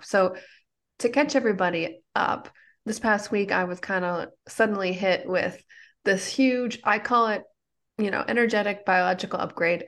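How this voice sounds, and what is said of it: Slightly congested voice. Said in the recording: “You probably can hear in my voice. I'm still a little congested”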